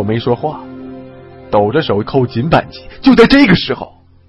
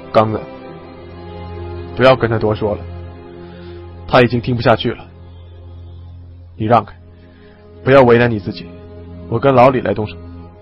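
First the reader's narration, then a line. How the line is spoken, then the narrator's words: Low, deep voice. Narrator (Chinese): 我沉声说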